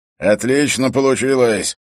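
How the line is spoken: Laughing. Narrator (Russian): засмеялся Эрок

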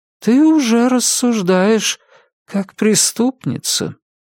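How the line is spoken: Sad remark. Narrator (Russian): грустно заметил голос, который потом станет голосом жёнушки

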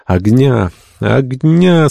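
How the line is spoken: Moaning, shivering sick people. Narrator (Russian): стонали больные, продрогшие до костей

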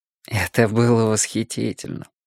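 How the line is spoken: Sighed. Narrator (Russian): вздохнул Слоттер

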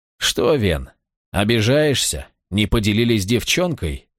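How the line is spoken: Mocking snort. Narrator (Russian): хмыкнул главарь

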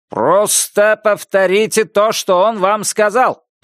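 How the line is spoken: Shout. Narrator (Russian): прокричал Буллард

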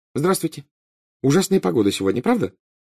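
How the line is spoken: Cheerful. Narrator (Russian): весело сказала Гермиона хозяину

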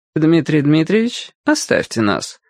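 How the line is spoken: Polite but demanding. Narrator (Russian): светским тоном потребовала Диана Яковлевна

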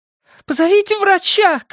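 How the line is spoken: Shouting. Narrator (Russian): кричала Синтия

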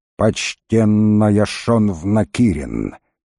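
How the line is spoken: Slow, heavy hatred. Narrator (Russian): Медленно, с тяжелой ненавистью повторил волкодав

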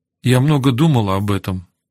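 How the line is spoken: Even-voiced woman's reply. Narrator (Russian): ответила она ровным голосом

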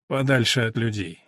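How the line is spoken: Young woman's snort. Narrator (Russian): девица снова хмыкнула

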